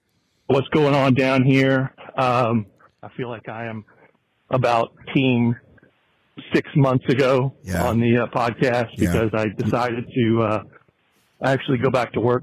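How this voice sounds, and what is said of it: Slightly out of breath. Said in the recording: “I might be a little out of breath. I'm on my Brian Beckner hot girl walk.”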